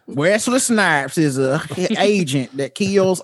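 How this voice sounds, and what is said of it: Put-on country accent. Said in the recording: “reading them in the country accent”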